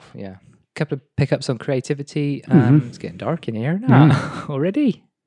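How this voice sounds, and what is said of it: West Country English accent. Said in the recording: “my stupid West Country accent”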